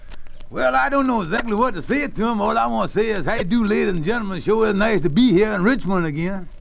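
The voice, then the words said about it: Radio comedy character voice. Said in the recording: “That's none other than Amos of Amos and Andy ... in your natural voice ... I'll slide out of the kingfish, the Amos stuff here, and get right down to my natural voice”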